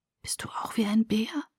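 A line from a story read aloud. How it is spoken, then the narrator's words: Quiet question. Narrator (German): fragte ich leise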